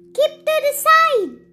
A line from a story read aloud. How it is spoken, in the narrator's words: shouted the little red car